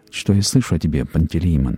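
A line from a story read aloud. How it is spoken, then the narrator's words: Plain. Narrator (Russian): сказал он ему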